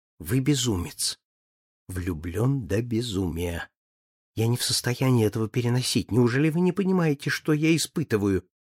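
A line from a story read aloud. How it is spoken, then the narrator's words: Whisper from behind a fan. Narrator (Russian): Флора полузакрывшись им шепнула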